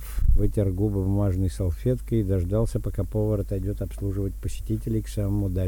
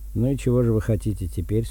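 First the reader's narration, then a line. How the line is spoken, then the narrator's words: Plain. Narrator (Russian): спросил он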